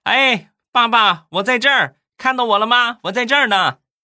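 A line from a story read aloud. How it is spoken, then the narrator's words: Child shouting loudly. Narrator (Chinese): 他闺女 冲着镜头大声的喊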